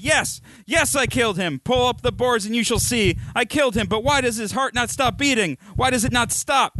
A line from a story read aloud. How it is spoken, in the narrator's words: cried